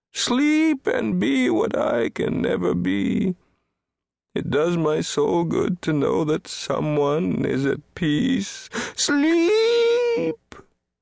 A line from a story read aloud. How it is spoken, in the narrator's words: he howled like the north wind